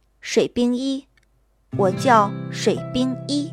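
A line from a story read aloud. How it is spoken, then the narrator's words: Slow, deliberate. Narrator (Chinese): 一字一句的道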